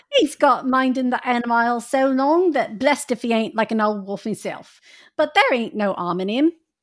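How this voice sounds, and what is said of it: Reads dialogue in a put-on accent. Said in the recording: “that's the accent I wish I could do, but I can't do that one.”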